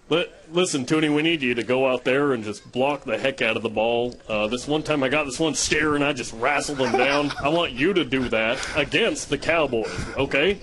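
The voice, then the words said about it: Throaty imitation of another person's voice. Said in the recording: “impersonation of Ty ... That's super good. ... He sounds just like it, actually. He's got like the right amount of throat involved in that impersonation.”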